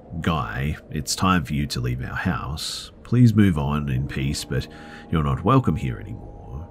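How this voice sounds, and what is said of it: Firm voice. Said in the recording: “in a firm voice”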